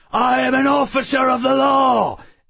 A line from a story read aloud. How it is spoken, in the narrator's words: the white burst out of it, yelling